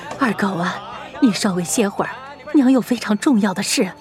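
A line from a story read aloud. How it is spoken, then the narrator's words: Sighing, earnest pleading. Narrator (Chinese): 长叹了一口气 苦口婆心道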